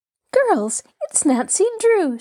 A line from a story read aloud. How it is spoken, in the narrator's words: she exclaimed enthusiastically